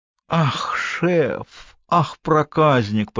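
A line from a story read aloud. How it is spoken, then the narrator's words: Drawling, mock-sugary, seductive. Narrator (Russian): протянула Мариса нарочито слащавым сексуальным тоном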